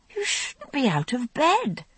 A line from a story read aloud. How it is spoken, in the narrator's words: I exclaimed, still groggy with sleep